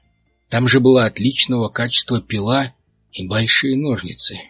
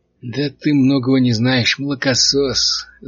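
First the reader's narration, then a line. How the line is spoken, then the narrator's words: Nasal laughing voice. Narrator (Russian): засмеялся гнусавый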